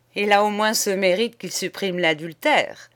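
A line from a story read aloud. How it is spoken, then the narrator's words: Sneering. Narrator (French): ricana Charigot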